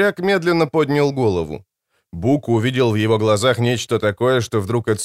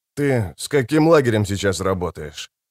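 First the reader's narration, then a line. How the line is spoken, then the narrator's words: Calm question. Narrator (Russian): спокойно поинтересовался капитан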